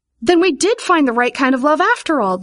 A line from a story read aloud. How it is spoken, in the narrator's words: Vivian cried joyfully